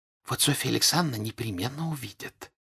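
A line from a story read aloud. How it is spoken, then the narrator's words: Whispering. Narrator (Russian): шепотом сказала Дуняша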